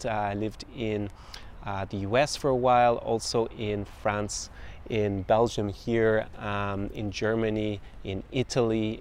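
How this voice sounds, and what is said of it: Mixed international accent, faint Irish. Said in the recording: “I don't have a particularly Irish accent when I speak. I've lost that Irish brogue to a certain extent... you can probably hear different influences on my accent.”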